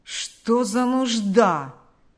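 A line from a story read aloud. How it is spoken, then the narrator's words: Grumbling. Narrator (Russian): проворчал Карп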